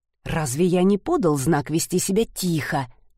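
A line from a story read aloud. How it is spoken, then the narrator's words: Hiss through teeth. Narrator (Russian): сквозь зубы зашипел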